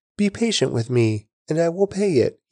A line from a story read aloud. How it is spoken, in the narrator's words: he pleaded